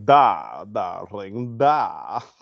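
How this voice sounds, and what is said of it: Put-on Russian accent, vampire-like. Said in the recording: “hot with that Russian accent ... now I hear a vampire ... That's how she sounds”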